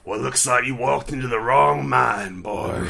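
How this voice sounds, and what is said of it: Growly deep Southern American accent. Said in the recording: “Deep Southern American. ... But like growly?”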